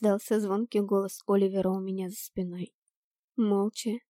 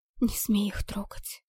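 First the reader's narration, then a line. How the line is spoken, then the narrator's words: Hissed. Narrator (Russian): зашипела я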